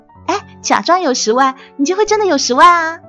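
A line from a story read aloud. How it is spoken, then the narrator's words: Chuckling. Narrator (Chinese): 这家伙呵呵一笑说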